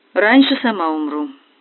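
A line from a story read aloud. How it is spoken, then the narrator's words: Unexpectedly calm. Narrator (Russian): неожиданно спокойно ответила Соня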